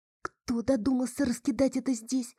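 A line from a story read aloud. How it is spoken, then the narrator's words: Muttering. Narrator (Russian): пробормотала я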